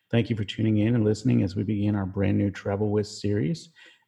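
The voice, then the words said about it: Flat, low-energy monotone delivery. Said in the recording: “why are you monotone tonight? Are you tired? ... this is so not your normal energy”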